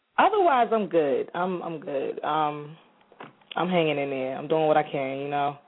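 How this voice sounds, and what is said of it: Rough-sounding voice. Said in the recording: “I'm actually still fighting a cold right now, so forgive me. My voice sounds kind of rough.”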